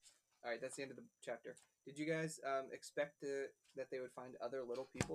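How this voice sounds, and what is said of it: Usual voice. Nothing is said of it.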